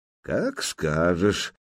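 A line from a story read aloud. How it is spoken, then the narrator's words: Calm young male. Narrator (Russian): спокойно отозвался княжич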